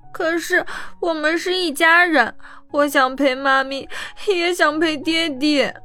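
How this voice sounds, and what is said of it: Choked, tearful child's voice. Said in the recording (Chinese): “哽咽的声音说道”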